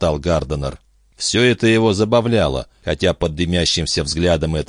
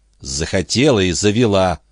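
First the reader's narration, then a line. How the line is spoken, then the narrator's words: Through gritted teeth. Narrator (Russian): процедила Энн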